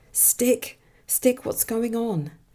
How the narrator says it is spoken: Frantically

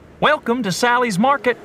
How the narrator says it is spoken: the attendant said cheerfully

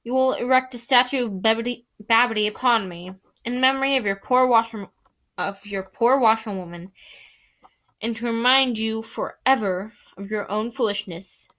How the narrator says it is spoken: said the stump

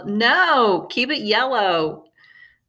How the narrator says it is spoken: We all, lovingly, yelled

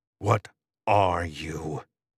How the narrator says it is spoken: I hiss

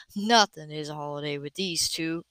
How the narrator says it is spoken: Simon murmured dryly

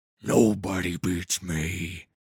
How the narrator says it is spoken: snarled

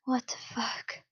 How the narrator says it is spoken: the blonde breathed out

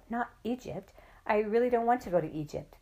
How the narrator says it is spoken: I cried out

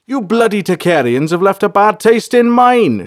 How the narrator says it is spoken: shouted Bolthar

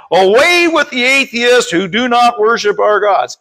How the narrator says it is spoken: They cried out

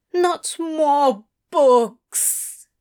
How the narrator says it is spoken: Wensleydale moaned

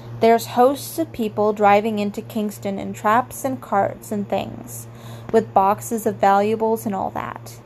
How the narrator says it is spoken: said

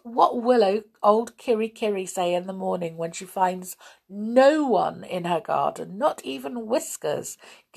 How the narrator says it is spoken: giggled Binky

